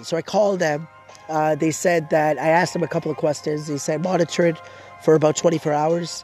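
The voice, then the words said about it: Hoarse, congested nasal voice. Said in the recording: “I'm losing my voice. I'm under the weather. Have a bit of a cough, sore throat, stuffy nose. Both of my nostrils are blocked.”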